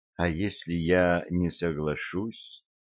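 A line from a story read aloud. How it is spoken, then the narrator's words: Quiet, uncertain. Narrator (Russian): тихо, неуверенно произнесла Кит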